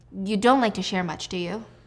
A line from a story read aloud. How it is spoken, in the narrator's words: Diana sighs